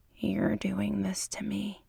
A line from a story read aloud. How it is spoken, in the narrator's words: he whispers